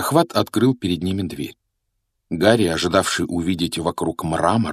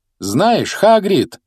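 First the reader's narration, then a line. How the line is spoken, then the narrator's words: Loud, over cart noise. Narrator (Russian): громко произнес Гарри, пытаясь заглушить шум тележки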